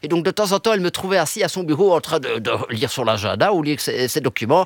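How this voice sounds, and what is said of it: Belgian French accent. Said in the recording (French): “On vous entend avec un accent belge”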